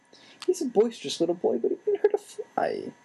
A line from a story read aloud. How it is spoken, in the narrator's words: Aunt Petunia said tearfully